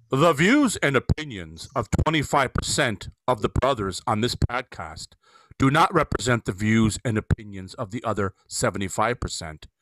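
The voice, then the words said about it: Formal announcer-style disclaimer voice. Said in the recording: “in my best disclaimer voice”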